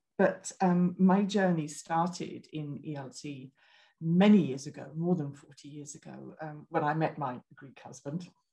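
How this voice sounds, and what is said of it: British English accent. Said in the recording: “I'm British, as you probably hear from my accent”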